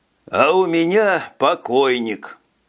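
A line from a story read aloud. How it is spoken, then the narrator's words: Captain's sad reply. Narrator (Russian): грустно ответил капитан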